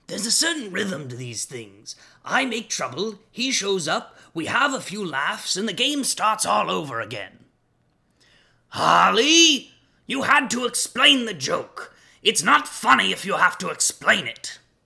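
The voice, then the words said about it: Imitates Joker character voice. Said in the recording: “my best impression of Mark Hamill's Joker”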